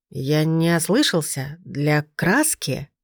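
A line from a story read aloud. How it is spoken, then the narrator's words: Slow, incredulous repetition. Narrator (Russian): Медленно повторил, словно не веря своим ушам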